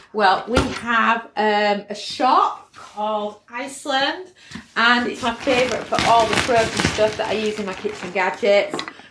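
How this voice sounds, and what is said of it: British accent. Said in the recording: “obviously from my accent, you can probably tell that I'm UK based”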